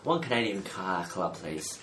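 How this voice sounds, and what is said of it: Slurred, mispronounced drunken speech. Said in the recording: “You had like a stroke ... I'm imitating ... I had a bit of drink taken at the time, so I was wasn't pronouncing my words very”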